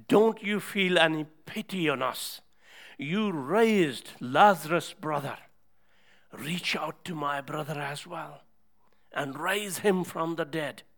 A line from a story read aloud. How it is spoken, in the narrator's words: cried out her heart and said